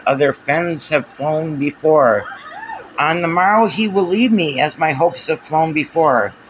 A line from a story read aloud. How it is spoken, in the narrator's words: muttered